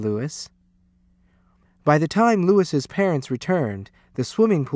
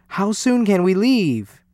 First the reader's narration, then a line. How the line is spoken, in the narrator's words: they cried